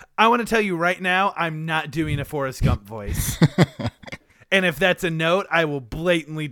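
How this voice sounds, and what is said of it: Usual voice. Nothing is said of it.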